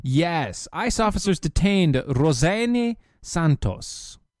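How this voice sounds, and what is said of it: Put-on Italian accent. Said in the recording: “you just said that with an Italian accent”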